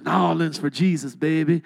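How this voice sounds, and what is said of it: Light Cajun accent. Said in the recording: “That's how you say it down there with a little Cajun accent.”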